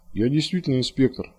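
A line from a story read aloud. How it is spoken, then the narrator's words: Calm remark. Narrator (Russian): спокойно заметил Завьялов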